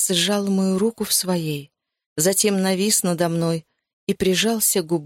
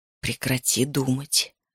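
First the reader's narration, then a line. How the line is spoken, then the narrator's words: Whispered. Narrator (Russian): прошептал он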